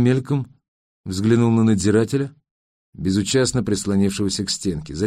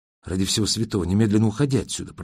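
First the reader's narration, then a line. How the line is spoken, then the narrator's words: Whispered in German. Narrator (Russian): прошептал он по-немецки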